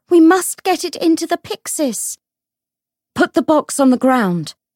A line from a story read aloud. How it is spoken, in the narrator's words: Lucy cried